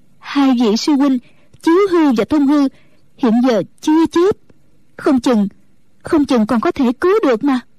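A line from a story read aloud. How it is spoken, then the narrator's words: Trembling reply. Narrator (Vietnamese): Mẫn Nhu run run đáp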